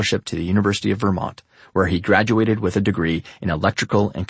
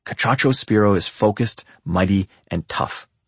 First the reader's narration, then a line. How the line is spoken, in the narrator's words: says Ted